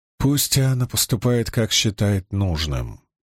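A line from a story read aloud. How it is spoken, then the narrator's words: Plain. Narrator (Russian): сказала она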